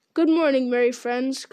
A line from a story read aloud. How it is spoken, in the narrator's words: cried Tom